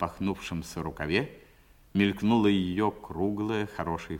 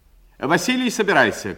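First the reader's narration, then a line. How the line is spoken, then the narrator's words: Decisive shout. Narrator (Russian): крикнула она решительным голосом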